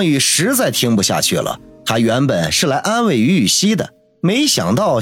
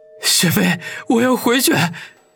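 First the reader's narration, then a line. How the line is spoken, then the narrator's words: Desperate tearful voice. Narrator (Chinese): 王宇如同见到了救命稻草一般，带着哭腔说道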